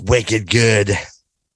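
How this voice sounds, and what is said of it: Put-on Boston accent. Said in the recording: “Can you do that in a Boston accent for me?”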